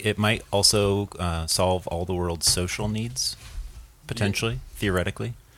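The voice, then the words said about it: Smooth NPR-style radio voice. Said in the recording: “You have a fucking nightmarish NPR radio voice.”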